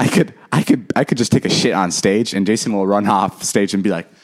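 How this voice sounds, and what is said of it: Usual voice. Nothing is said of it.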